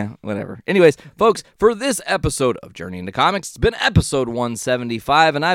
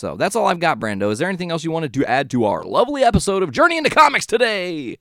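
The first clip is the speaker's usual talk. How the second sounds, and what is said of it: Fast announcer-style voice. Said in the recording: “That was my best, like, speedy announcer voice ... speedy announcer voice.”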